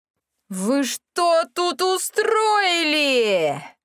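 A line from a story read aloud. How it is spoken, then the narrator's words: Loud howl. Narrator (Russian): взвыл голос на всю библиотеку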